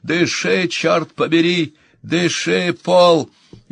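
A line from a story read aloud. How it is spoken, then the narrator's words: Woman yelling close. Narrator (Russian): Ее голос заорал над его ухом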